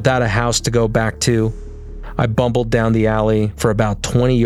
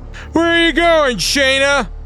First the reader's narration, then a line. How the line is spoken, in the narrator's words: I bellowed through my hands